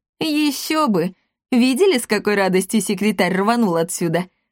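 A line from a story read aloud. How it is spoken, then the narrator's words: Loud laughter. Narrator (Russian): расхохотался Акаций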